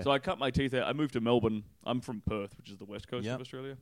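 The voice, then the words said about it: Australian accent. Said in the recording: “You come out here with an Australian accent”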